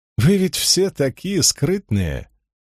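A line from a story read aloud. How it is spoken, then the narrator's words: Merry, slightly silly laugh. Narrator (Russian): рассмеялась, весело и слегка дурашливо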